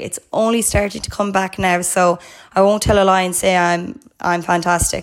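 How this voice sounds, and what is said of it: Hoarse, recovering voice. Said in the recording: “I sound quite hoarse. I lost my voice on Friday.”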